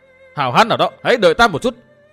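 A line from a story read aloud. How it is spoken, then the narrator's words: Frantic, wild shouting. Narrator (Vietnamese): Dương Viễn kêu rống lên như điên dại và hét to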